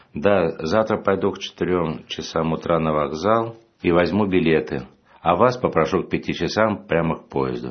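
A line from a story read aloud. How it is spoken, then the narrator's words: Plain. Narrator (Russian): ответил я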